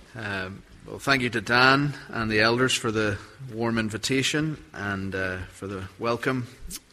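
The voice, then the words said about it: Northern Irish Belfast accent. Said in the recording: “As you can hear from my accent, I'm not from around here. I'm from a city called Belfast.”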